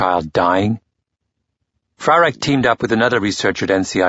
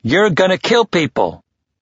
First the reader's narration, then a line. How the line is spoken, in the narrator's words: Frarek pounded on the table with his fists, shouting out